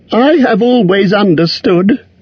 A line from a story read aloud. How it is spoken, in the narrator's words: said Bilbo in a frightened squeak